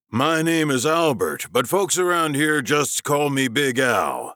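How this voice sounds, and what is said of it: Usual voice. Nothing is said of it.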